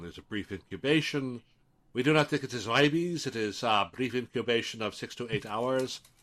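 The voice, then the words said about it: Attempted Quebecois French accent. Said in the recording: “I can't really do a Quebecois accent, but ... better than I could.”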